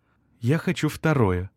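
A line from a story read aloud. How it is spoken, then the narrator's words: Languid sighing whisper. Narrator (Russian): шепнула Мария, томно вздохнув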